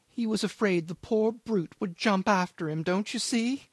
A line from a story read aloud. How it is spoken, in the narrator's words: he pursued with a quaver